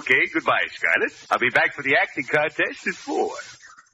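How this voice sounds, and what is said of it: Comic Russian character voice. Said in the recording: “I know who you're imitating ... the Mad Russian”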